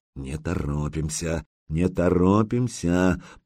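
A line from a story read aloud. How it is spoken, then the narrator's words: Muttering. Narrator (Russian): пробормотал Загреба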